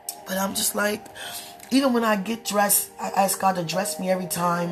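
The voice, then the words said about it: Hoarse, low voice. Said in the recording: “Excuse my hoarse voice. I probably sound like a man. ... I'm so hoarse”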